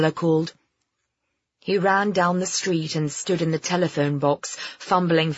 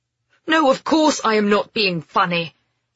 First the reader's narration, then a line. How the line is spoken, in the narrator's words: he snapped